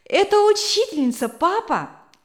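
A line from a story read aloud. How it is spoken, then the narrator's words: Joyful exclamation. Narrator (Russian): вскричал Вилли радостно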